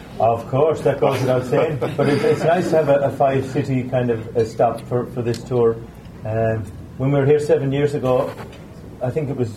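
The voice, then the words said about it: Irish accent. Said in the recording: “I love the accent. Oh, there's nothing more fabulous than an Irish accent.”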